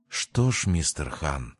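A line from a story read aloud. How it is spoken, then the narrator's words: Passionate whisper. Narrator (Russian): жарко прошептала Мими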